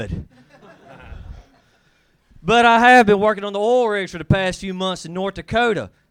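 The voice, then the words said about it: Southern US accent. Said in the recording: “I'm from the South. I'm from Mississippi... when I talk in L.A.... somebody heard my accent”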